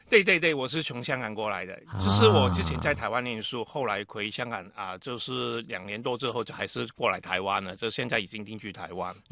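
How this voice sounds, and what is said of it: Heavy Cantonese-accented Mandarin. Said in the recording (Chinese): “Leslie 的这个 口音啊，都会觉得哇，广东国语啊，这个味道很重哈”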